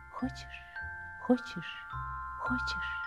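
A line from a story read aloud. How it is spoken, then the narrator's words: Whispering leaves. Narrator (Russian): листья шептали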